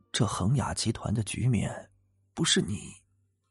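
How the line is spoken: Hushed, surprised voice. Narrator (Chinese): 董长生更吃惊了 压低了声音道

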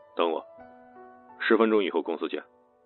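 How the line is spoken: Flat and calm. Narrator (Chinese): 冷风终于淡淡开口

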